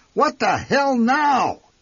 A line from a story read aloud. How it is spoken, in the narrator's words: bellowed